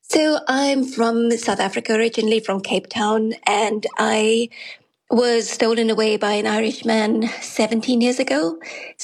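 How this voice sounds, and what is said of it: South African English accent. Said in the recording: “trying to place the accent”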